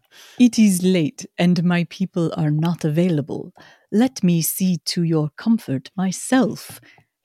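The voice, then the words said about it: Put-on accent, inconsistent. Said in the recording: “The accent's just changing with every time I read it ... It's a little accent.”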